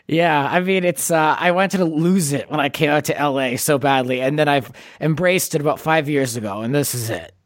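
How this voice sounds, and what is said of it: Boston-Bronx blend accent. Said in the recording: “you have a very unique accent. ... a cross between Boston and the Bronx.”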